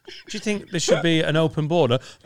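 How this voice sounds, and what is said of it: Boris Johnson impression. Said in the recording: “quite a good Boris Johnson impression”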